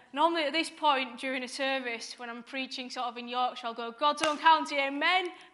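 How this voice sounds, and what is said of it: Yorkshire English accent. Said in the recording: “As you've probably guessed from the accent, I am from the right side of the Pennines, from Dewsbury.”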